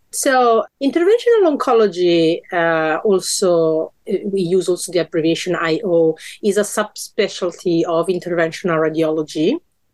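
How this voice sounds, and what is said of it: Slightly hoarse, strained voice. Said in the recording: “My voice is not the best because I have a sore throat,”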